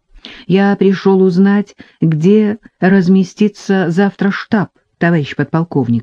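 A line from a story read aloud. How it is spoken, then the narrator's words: Plain. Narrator (Russian): ответил он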